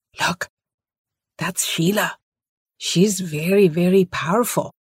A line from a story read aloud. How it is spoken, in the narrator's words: people stopped to point and whisper